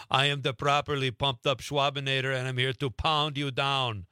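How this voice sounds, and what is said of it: Arnold Schwarzenegger Austrian accent impression. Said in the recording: “You would speak in an Arnold Schwarzenegger Austrian accent.”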